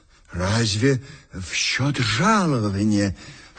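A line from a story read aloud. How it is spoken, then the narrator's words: Timid remark. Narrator (Russian): робко заметил я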